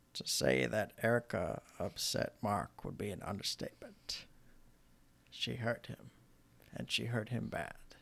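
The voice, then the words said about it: Morgan Freeman narrator impression. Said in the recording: “it's going to be a battle of the Morgan Freemans then ... Your impression could use some work, but so could mine.”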